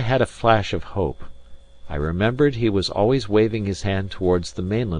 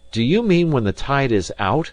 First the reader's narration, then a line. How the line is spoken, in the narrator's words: I cried, and could not finish